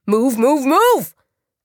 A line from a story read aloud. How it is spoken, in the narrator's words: Oliver barked